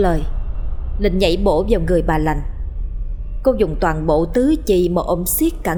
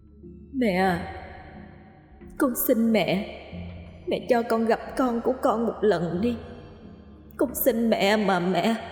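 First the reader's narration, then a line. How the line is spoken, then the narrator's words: Moaning, pleading. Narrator (Vietnamese): lại tiếp tục rên rỉ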